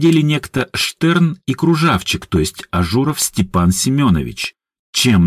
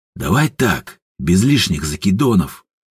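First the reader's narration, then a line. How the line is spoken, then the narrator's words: Quiet demand. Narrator (Russian): тихо потребовал Ажур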